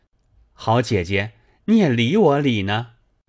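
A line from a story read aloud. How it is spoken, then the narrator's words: Laughing. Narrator (Chinese): 宝玉笑道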